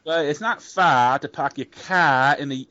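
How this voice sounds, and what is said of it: Put-on Boston or Maine accent. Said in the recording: “can you do a good Boston accent? ... that's more a Maine accent actually ... That sounded good. That sounded Boston.”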